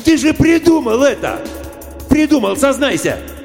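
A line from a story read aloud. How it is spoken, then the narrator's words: Yelling in someone's face. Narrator (Russian): Он заорал в лицо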